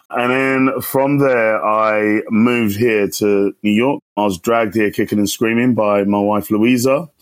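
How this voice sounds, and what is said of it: London English accent. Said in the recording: “I had my secondary socialization in a sunny London town, hence the accent”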